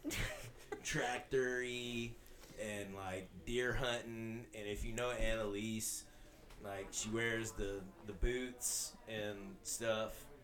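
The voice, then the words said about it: Thick Southern US accent. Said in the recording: “I may have a thick southern accent”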